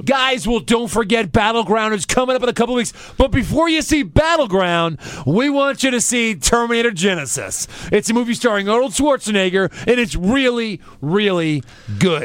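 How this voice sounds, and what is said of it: Impression of Michael Cole. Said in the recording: “I can only imagine what he sounded like, so I'm going to try to do his impression ... Michael Cole”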